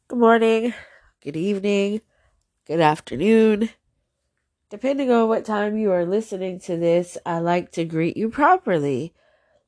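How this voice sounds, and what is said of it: Stuffy, congested voice. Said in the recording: “I sound stuffy. I think I'm experiencing a little bit of allergies.”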